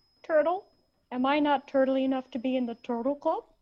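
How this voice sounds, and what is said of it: Imitated movie character voice. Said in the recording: “your best impression of his impression of the turtle man ... That hurt because it was good.”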